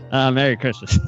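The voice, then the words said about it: Bill Clinton impression. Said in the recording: “good Clinton impression.”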